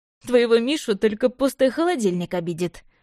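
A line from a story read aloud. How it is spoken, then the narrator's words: Short laugh. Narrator (Russian): хохотнул Лёша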